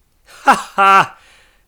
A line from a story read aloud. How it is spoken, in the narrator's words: laughed Scrooge's nephew